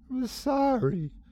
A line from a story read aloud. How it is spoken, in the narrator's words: she sobbed